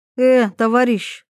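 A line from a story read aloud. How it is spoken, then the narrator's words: Displeased snort. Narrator (Russian): недовольно фыркнула Ивета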